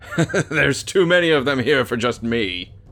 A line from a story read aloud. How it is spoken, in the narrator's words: he laughed